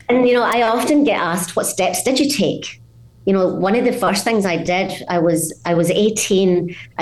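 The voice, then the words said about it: Scottish accent. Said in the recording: “without losing my Scottish accent”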